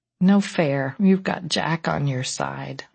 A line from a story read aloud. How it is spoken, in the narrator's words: I murmured